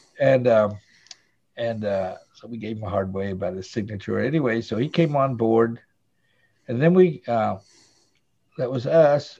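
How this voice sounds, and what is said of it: Southern American accent. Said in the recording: “I've got a Southern accent”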